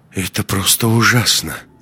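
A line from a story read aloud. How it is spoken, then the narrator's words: Barely audible, tactful. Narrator (Russian): еле слышно сказала Маруся, стараясь никого не обидеть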